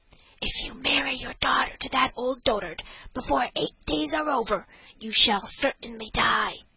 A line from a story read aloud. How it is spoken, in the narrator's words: whispered in her ear